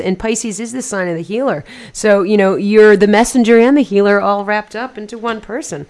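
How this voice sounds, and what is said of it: English accent. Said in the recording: “my very weird English accent”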